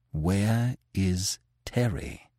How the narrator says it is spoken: Manfred asked in a low tone

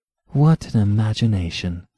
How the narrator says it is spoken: she said softly and almost enviously

